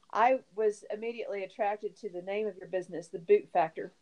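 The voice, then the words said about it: Texas accent. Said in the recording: “I'm from Texas, you know, and when I talk about boots, my accent comes out. ... It totally does. I just heard it. I was like, oh, yeah, she knows how to say boot.”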